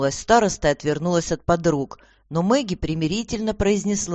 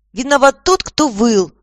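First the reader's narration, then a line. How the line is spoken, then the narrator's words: Blurted out quickly. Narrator (Russian): Тут же выпалила Воронкова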